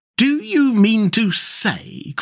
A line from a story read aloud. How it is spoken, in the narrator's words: cried the excited rat